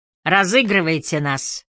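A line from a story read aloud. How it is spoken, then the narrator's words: Louder laughter. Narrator (Russian): засмеялся еще громче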